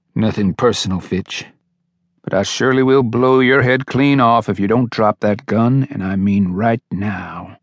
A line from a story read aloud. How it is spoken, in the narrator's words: Sefton said calmly